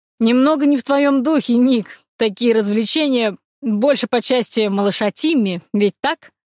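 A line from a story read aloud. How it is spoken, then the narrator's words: Chuckling young man. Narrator (Russian): хохотнул молодой человек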